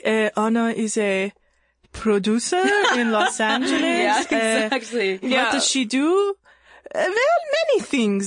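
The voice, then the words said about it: Pretty good put-on Persian accent. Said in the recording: “That's a pretty good Persian accent ... That's, like, pretty good.”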